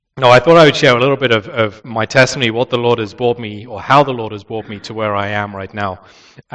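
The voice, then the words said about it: British accent. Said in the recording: “you've still got a British accent... he still sounded as British as he did an hour before”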